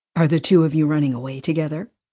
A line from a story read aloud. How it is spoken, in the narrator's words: Susan said